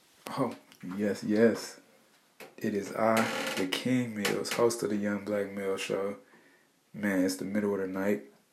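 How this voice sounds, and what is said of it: Low, quiet voice. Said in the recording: “my voice is a little low”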